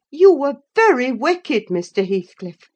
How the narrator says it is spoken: I exclaimed

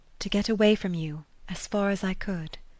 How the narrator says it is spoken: repeated in a low voice

